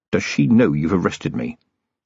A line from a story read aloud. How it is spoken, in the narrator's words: Vimes leaned forward and whispered